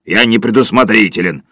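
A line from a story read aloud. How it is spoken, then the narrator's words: Grumbling. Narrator (Russian): проворчал Сиверсон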